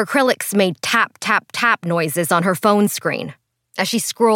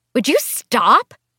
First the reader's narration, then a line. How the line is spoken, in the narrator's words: Christine cried out